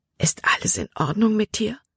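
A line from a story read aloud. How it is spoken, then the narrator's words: Whispered. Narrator (German): flüsterte er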